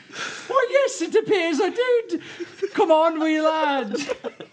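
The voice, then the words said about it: Put-on Irish accent. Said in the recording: “Did you just gain an Irish accent”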